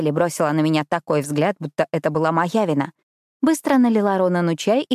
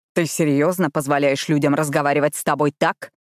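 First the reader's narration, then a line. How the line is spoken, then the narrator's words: Angry growl. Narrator (Russian): прорычал Ронан, сердито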